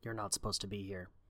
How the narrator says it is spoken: Rebecca started, making a conscious effort to speak more quietly

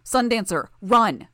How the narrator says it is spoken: I shouted, breaking the stillness

